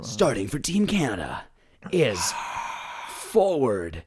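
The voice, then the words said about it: Cool announcer voice. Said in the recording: “in a cool announcer voice.”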